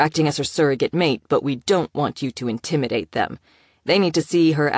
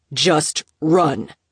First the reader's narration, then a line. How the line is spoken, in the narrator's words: barked in alpha voice